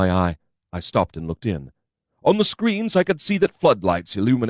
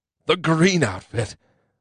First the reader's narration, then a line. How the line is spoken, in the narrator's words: I cried aloud